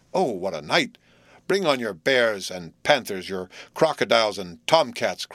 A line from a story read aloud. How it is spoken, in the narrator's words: cried Jerry